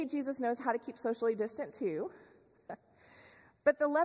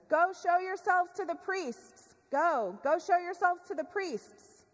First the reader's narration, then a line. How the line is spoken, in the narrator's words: Jesus yells back to them, says